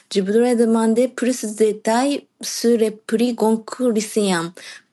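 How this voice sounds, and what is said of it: Cute non-native French accent. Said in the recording (French): “Ton accent est trop mignon.”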